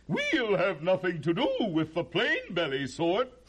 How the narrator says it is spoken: And they'd snort

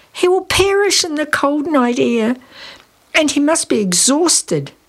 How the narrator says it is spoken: Lisa moaned

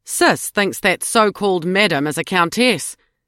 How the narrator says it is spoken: Beryl said with a derisive snort

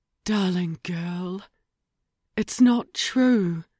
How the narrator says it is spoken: Ruby murmured

